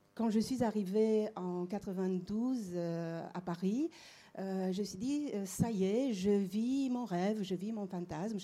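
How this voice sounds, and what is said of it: Slight Romanian accent in French. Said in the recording (French): “comme vous l'entendez sans doute. J'ai un petit accent... d'où vient votre petit accent. Mais oui, je suis née à Bucarest.”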